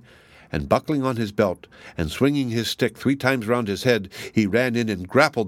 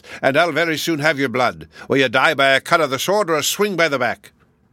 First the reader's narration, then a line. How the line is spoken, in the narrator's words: he roared, fire coming out of his 6 mouths